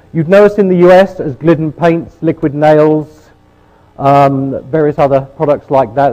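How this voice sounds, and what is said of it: British accent. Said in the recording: “you'll probably notice the British accent”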